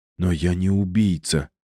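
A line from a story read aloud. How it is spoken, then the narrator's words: Mumbled. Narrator (Russian): промямлил Пьер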